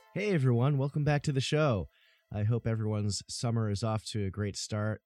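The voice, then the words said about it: Slightly scratchy voice. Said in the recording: “My allergies are kicking in big time ... my voice sounds a little scratchy”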